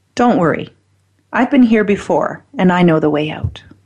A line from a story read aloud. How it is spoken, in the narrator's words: The other man calmly said